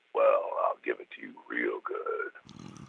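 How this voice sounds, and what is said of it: Very deep, low voice. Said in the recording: “your really deep voice ... Ooh, the low voice ... a very deep register”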